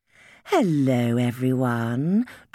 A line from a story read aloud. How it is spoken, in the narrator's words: drawled Frostia